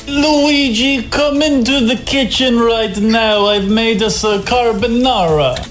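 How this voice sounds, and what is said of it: Put-on Italian accent, slightly vampire-like. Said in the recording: “We've got a bit vampire-ish there ... best Italian accent”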